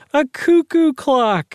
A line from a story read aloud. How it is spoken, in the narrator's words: Doris cried